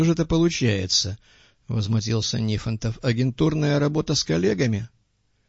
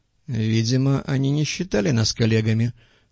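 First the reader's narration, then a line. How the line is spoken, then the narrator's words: Sighing. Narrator (Russian): вздохнул Голубков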